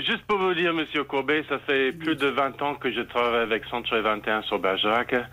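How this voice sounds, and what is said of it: English-speaking Canadian accent in French. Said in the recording (French): “avec un accent anglophone, mais je suis canadien”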